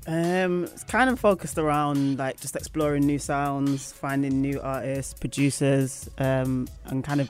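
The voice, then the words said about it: Manchester English accent. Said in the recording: “you're originally from Manchester, as I can hear from the accent”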